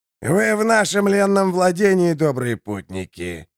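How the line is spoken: Hoarse voice. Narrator (Russian): сообщил хриплый

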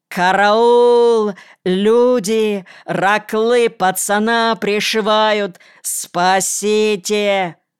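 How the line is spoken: Yelling. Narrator (Russian): Колька и заорал

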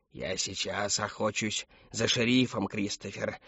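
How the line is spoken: Mumbling in sleep. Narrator (Russian): забормотал во сне

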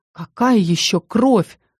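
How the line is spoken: Stunned breathless gasp. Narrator (Russian): оторопела, выдохнула

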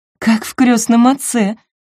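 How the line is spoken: Nervous laugh. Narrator (Russian): нервно засмеялась Айви

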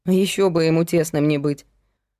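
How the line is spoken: Snorted. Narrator (Russian): фыркнула Майя

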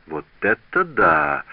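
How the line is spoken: Exclaiming. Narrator (Russian): воскликнул Обри

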